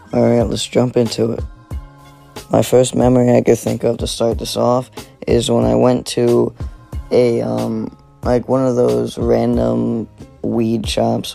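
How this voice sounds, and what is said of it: Groggy, just-woken-up voice. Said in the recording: “I'm sorry that I sound different. I just woke up.”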